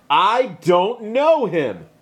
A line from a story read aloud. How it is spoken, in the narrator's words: he started cursing at them and yelled